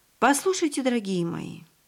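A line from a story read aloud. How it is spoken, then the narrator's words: Hesitant, uncertain. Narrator (Russian): обратилась к своим детям пани Кристина, обратилась как-то неуверенно, вроде бы сомневаясь, стоит ли продолжать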